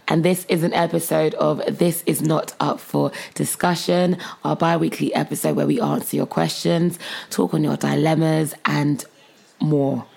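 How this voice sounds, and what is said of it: Hoarse, strained voice. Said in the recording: “I sound rather hoarse... I've basically lost my voice.”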